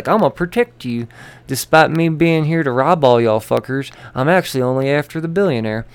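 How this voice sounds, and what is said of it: Stupid hick character voice. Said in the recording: “Deadshot's a fucking hick now, according to my stupid voice.”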